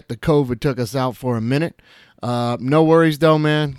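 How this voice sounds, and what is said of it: Slightly hoarse, weakened voice. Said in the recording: “you can probably still hear it in my voice a little bit ... wiped my voice right out, man. Took my voice right out”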